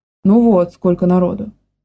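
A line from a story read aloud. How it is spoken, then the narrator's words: Grumbling. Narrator (Russian): проворчала Маня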